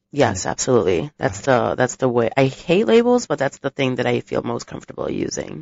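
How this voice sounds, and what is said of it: Polished radio voice. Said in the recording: “you have a fantastic radio voice”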